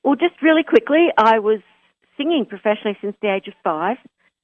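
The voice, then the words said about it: Australian accent. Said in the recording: “we want to match our New York and Australian accents.”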